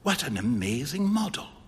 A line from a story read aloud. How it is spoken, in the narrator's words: whispered Huey